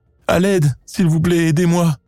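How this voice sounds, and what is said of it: Shouting in a tearful voice. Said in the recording (French): “en criant avec une voix pleine de larmes”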